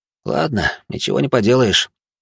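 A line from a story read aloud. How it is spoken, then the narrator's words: Grumbled under breath. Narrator (Russian): буркнул целитель себе под нос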